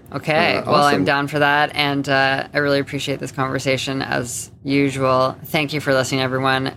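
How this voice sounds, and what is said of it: Flat, monotone, tired voice. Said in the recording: “my voice has been very monotone. ... I'm just a little bit tired”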